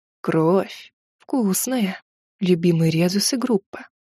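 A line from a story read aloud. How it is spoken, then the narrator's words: Whispered. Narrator (Russian): прошептал Бадарне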